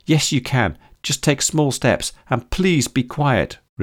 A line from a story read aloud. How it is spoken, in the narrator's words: replied May desperately